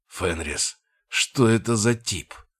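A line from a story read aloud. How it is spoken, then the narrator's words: Low guttural growl. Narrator (Russian): прорычал, его голос был низким и гортанным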